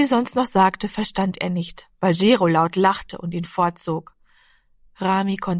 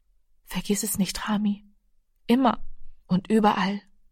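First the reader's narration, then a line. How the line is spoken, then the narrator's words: Quiet. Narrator (German): sagte leise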